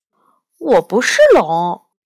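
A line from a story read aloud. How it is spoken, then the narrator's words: Hushed question. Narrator (Chinese): 压低声音问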